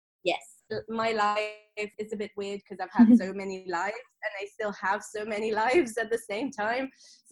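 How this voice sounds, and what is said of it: Speaks with a non-native accent. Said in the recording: “It's so good to hear your accent again.”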